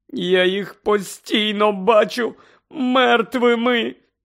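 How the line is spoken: Moaning. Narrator (Ukrainian): стогнала місіс Уізлі

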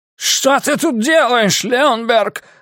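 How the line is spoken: Yelling. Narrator (Russian): орал он

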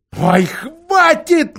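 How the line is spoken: Rude shout. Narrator (Russian): невежливо крикнул Дигори

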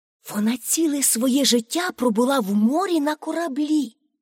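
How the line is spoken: Teacher whispering. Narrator (Ukrainian): пошепки сказала вчителька

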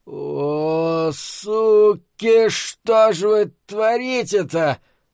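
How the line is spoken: Groaning. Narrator (Russian): Простонал он

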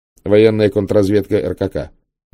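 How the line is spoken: Quick speech. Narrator (Russian): быстро сказал Норт

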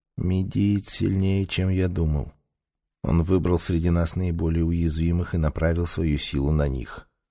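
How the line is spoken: Quiet. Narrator (Russian): Бэй тихо сказал

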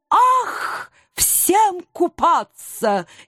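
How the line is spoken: Sudden rapturous exclamation. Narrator (Russian): Неожиданно восторженно воскликнул голубой эльф

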